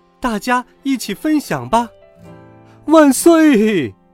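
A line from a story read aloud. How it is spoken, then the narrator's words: Loud. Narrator (Chinese): 凯奇大声的说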